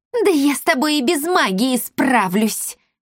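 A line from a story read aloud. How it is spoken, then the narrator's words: Hissed. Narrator (Russian): прошипела Бия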